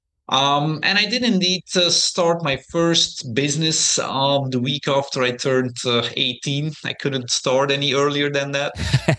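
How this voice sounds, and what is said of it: Belgian accent. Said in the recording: “that strange accent is coming from, so I'm originally from Belgium”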